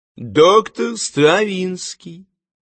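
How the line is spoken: Friendly greeting. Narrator (Russian): приветливо сказал бритый

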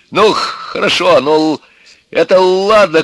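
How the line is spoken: Father shouting. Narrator (Russian): кричал отец

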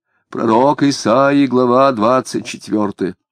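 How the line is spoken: Unexpectedly deep gloomy proclamation. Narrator (Russian): неожиданно густым, сумрачным голосом возгласила

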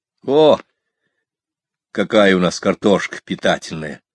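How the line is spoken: Gloomy remark. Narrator (Russian): мрачно отметил я

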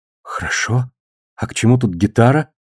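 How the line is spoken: Barely audible exhale. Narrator (Russian): едва выдохнула Амантис

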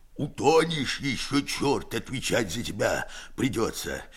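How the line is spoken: Hoarse. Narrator (Russian): хрипит Герасим

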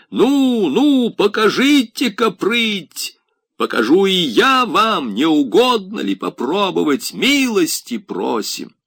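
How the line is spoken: Breathless shouting. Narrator (Russian): кричал, задыхаясь

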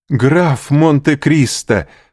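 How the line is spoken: Exclaiming. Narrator (Russian): воскликнул Морель

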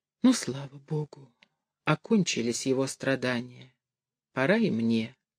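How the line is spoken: Barely audible, frail. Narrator (Russian): едва слышно сказала

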